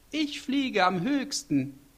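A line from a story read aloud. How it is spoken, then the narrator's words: Called. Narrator (German): Als er schon rief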